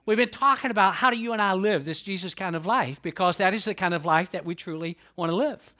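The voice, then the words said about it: Southern US drawl. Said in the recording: “I'm from the South. I'm from Atlanta, Georgia. ... I have a Southern drawl.”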